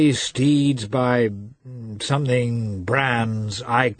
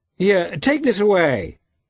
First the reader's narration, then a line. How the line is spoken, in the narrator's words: he shouted to the Tartar